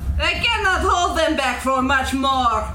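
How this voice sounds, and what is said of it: Shouted female character voice. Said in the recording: “You do her voice ... That's what she shouts.”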